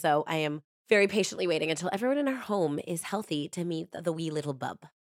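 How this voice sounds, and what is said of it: Voice affected by a cold. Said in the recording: “my voice is getting a little bit better, but I got this cold”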